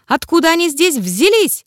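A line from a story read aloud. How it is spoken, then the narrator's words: Shrill squeal, old man. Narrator (Russian): взвизгнул старичок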